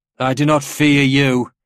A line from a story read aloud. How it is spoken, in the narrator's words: shouted